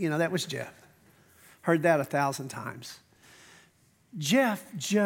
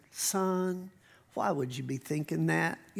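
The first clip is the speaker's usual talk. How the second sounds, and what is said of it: Imitated southern accent. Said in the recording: “Had this great southern accent.”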